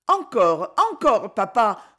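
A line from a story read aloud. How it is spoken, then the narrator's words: Children exclaiming together. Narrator (French): s'écrièrent ses enfants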